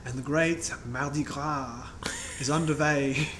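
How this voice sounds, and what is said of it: Put-on German accent. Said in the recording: “That's a great uh, German accent”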